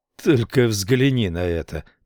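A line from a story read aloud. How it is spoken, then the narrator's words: Disgusted grumble. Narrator (Russian): проворчал он с отвращением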